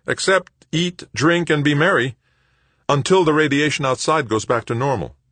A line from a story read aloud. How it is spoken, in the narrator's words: Anson replied, her voice raised to be heard over the thumping beat of the music